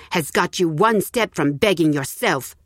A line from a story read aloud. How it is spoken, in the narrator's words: snapped the neighbor